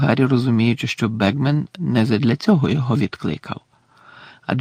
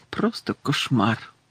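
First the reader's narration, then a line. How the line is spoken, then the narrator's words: Quiet speech. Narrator (Ukrainian): тихо сказав Бегмен до Гаррі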